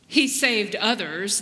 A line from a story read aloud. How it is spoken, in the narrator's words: they said